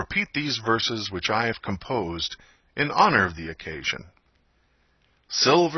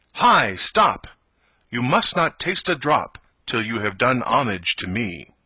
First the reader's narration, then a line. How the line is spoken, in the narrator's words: he cried out in a loud voice